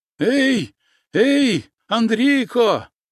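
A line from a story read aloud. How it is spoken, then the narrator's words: Shouting. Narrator (Russian): закричав караед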